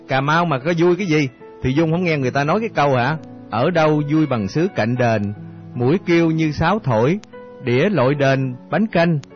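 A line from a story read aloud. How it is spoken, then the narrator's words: Laughing loudly, interjecting. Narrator (Vietnamese): Khoa cười lớn xen vô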